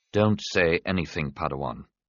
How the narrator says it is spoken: Qui-Gon said gently

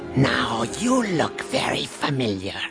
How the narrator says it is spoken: he rasped

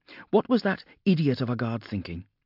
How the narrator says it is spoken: she snapped

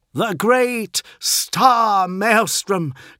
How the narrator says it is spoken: cried Fulgrim, like a fiery preacher of a bygone age

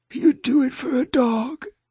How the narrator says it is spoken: she'd croaked

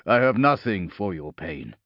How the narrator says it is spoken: Polixis said gruffly

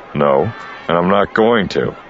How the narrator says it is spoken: Han said

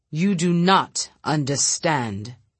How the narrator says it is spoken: Royd said sternly

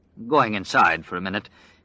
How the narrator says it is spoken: Glenn said thickly

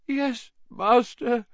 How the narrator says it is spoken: moaned Wormtail

